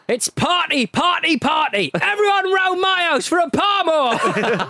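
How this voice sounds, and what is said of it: Ali Brownlee commentary impression. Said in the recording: “Ali Brownlee when Borough reached the UEFA Cup final in 2006 ... that's why You asked my accent to do this one”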